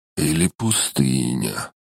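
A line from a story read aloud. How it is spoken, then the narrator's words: Hoarse voice. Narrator (Russian): Севшим голосом продолжил волшебник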